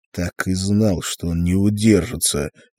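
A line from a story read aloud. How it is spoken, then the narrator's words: Nervous muttering. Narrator (Russian): нервно бормотал Артур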